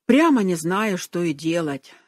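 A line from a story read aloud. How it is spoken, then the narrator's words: Heavy sigh. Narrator (Russian): сказал он и тяжело вздохнул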